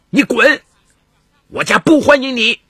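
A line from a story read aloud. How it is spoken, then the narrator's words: Angry roar. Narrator (Chinese): 邹敏怒声大吼道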